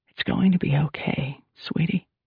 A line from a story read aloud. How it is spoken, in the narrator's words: Julie whispered